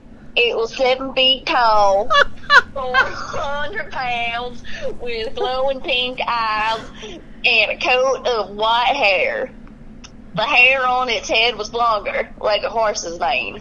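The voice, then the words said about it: Put-on Southern US accent. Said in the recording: “Should I do a southern accent? ... you do whatever accent you want ... Oh, that's very good.”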